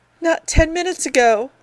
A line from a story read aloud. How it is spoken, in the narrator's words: the woman whimpered